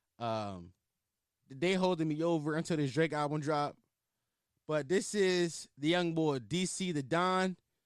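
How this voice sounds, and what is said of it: Strong Philadelphia accent. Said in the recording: “I just went heavy into my Philly accent ... I just got heavy into my accent.”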